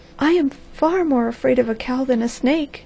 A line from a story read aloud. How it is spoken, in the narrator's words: she cried